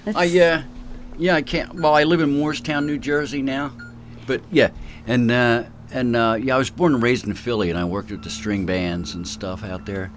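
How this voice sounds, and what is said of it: Strong Philadelphia accent. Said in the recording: “Could we tell you're from Philly? Listen to that accent. His accent's even more stronger than Barry's”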